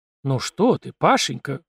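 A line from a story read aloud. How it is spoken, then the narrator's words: Affectionate reply. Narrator (Russian): ласково отозвалась она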